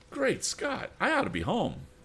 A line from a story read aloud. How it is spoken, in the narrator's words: the bank employee exclaimed